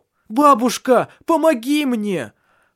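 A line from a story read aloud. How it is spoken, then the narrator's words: Desperate shout. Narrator (Russian): в отчаянии закричал Таральд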